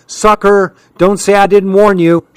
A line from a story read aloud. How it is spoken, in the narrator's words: she hollered